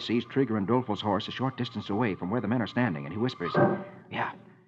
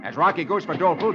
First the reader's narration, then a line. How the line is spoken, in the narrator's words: Dude snaps at Roy